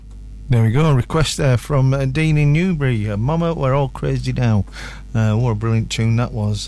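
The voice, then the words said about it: Stronger northern English accent. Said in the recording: “Sorry if I'm talking in a more northern accent. ... I've got my northern on a bit more.”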